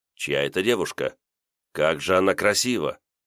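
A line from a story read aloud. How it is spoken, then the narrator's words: Quiet question. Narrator (Russian): командир большевистского отряда тихо спросил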